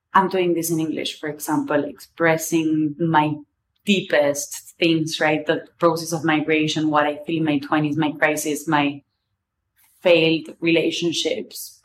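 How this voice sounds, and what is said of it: English with an Argentinian accent. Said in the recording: “accent wise, I will never let go of my Argentinian accent.”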